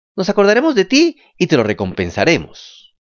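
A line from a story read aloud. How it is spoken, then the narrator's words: Shouted together. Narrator (Spanish): gritaron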